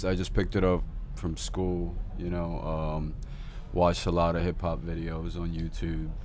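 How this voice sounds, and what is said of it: American accent. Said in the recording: “You have an American accent.”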